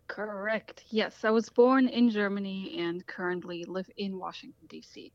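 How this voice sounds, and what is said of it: Slight foreign accent. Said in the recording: “I sense a tiny bit of an accent, so I'm guessing you are not a native to Iowa.”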